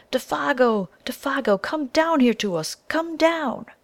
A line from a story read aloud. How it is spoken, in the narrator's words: he cried aloud